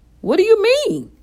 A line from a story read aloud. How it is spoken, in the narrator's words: cried